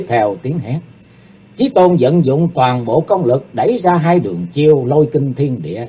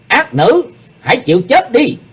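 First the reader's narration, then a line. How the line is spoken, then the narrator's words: Shout. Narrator (Vietnamese): tiếng quát, kiếm khách Phạm Thiên Hòa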